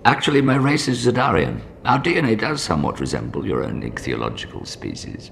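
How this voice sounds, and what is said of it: British accent. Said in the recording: “why does the fish have a British accent?”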